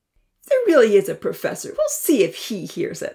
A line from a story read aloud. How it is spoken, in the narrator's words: Odin chuckled